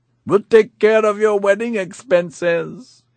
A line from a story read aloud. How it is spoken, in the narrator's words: he shouted back